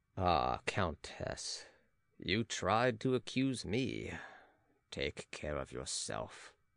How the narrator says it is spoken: he muttered

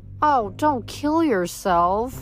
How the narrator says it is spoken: cried

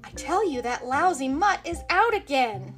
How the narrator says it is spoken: Dabney Nabbit shouted

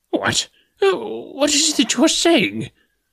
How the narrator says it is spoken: cried the professor

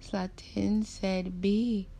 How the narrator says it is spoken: said between 2 sobs

